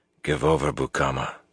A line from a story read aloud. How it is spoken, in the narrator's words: Lan told him quietly